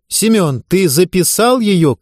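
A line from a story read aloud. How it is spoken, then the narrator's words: Shouting. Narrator (Russian): крикнула Сорокина в сторону ассистента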